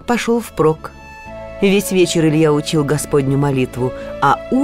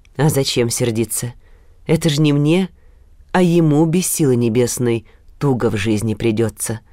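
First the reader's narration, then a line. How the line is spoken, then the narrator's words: Calm old man explaining. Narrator (Russian): спокойно объяснил дед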